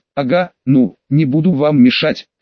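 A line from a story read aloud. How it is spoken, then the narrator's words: Calm but stammering. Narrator (Russian): со спокойным лицом, никак не сочетающимся с ее внезапным заиканием, поведала Мики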